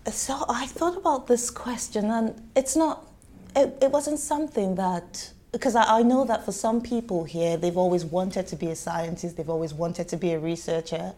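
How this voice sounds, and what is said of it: Nigerian English accent. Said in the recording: “as you can probably tell from my accent, I did not grow up here ... I'm Nigerian by origin”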